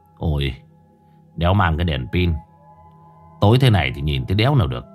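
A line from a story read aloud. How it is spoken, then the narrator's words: Startled muttering. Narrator (Vietnamese): gã giật mình lẩm bẩm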